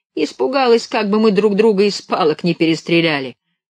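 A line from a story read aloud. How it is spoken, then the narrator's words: Shouting. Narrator (Russian): крикнул Горшок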